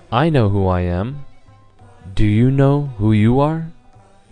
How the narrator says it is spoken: calmly he said

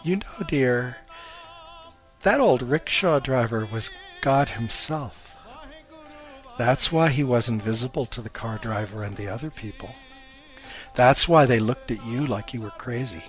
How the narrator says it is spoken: Her mom chuckled and said

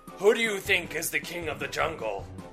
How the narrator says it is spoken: The lion roared

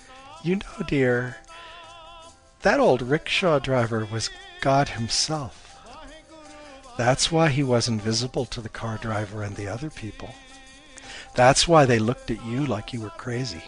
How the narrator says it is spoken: Her mom chuckled and said

